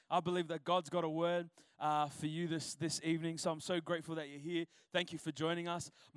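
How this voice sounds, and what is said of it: Strained, partly lost voice. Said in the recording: “I've kind of lost my voice a little bit, but I'm going to push it out”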